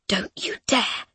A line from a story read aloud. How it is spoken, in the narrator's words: she whispers